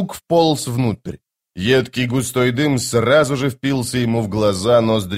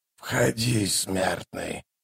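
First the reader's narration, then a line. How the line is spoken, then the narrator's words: Hoarse creaking voice. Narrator (Russian): хриплый голос проскрипел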